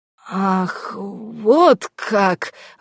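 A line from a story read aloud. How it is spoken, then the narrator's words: Strained, forced out. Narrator (Russian): выдавил с некоторым трудом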